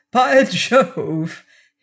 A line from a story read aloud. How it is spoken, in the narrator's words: he cried